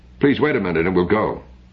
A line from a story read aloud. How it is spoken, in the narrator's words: she said sharply